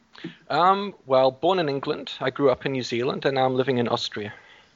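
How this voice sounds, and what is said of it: Unusual mixed English accent. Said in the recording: “that crazy ass accent.”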